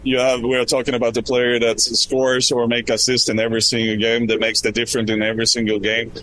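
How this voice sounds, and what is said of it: Swedish accent. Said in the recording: “Swedish accent”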